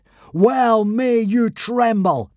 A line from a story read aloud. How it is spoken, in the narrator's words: bellowed Hiccup